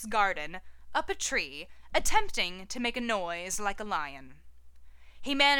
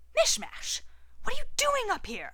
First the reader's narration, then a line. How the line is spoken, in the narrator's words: He hisses